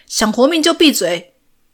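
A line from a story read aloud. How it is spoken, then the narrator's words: Loud shout. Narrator (Chinese): 大声喊着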